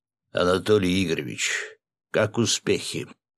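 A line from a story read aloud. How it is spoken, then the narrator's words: Deep familiar bass voice. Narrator (Russian): пробасил знакомый голос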